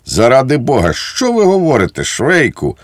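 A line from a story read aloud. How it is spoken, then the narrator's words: Desperate exclamation. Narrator (Ukrainian): розпачливо вигукнув зблідлий поручник Лукаш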